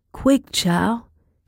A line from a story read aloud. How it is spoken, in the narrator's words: cried